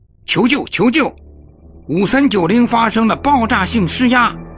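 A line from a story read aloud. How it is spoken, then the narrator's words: Repeated urgent radio call. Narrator (Chinese): 他不断向无线电呼叫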